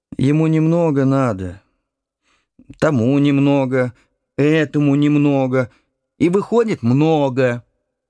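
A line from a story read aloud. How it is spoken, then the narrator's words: Hoarse sighing. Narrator (Russian): Мать хрипло вздохнула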